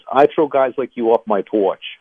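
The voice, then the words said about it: Put-on northern New Jersey accent. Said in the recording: “in a good northern New Jersey accent ... Is that a good accent? ... It's really good.”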